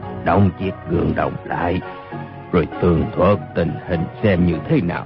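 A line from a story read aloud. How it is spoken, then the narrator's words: Old hoarse voice. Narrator (Vietnamese): Một giọng già nua khàn khàn nói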